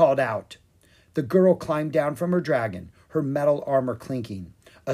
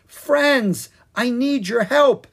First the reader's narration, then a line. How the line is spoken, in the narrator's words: Jean cried